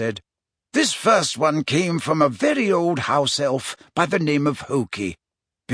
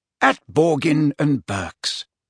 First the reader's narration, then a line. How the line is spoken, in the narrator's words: repeated Dumbledore calmly